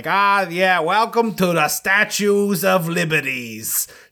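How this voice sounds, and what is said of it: Exaggerated New York accent. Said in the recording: “doing like the worst like New York statement, like he talking”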